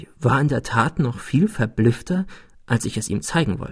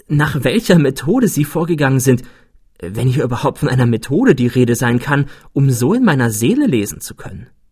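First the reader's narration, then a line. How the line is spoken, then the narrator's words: Exclaiming. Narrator (German): rief ich aus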